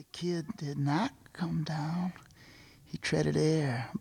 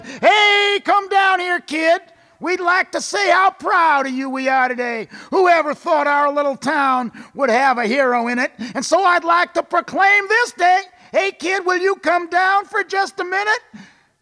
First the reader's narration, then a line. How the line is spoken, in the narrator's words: Mayor Lowry shouted